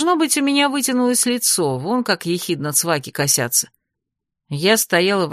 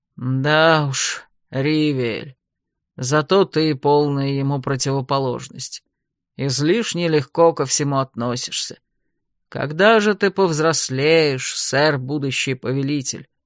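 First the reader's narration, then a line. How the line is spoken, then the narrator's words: Embarrassed grumble. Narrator (Russian): проворчал смущенный Лерекайн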